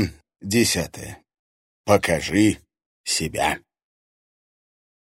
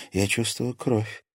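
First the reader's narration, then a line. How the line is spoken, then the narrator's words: Quiet statement. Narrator (Russian): тихо сообщила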